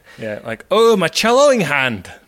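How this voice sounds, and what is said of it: Put-on Scottish accent. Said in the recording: “Scottish accent.”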